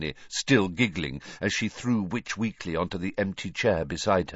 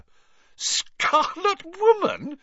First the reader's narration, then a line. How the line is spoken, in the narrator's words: she repeated, shaking with suppressed giggles